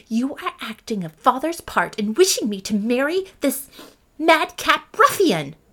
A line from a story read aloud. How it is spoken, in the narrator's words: said Catherine angrily